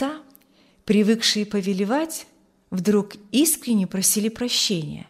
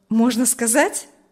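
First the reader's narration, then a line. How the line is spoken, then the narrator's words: Cheerful smiling question. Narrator (Russian): спросил Урзин, уже весело улыбаясь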